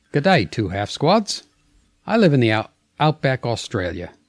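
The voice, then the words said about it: Put-on Australian accent, not good. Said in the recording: “read it in an Australian accent ... I didn't say a good Australian accent”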